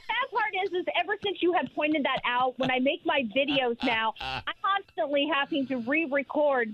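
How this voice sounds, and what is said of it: Tennessee Southern accent. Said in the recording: “your Tennessee accent ... you really hear my Tennessee accent come out”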